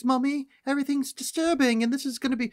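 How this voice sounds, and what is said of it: Scary put-on British accent. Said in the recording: “doing a scary British voice”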